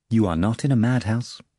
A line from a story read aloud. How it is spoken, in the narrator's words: the doctor informed calmly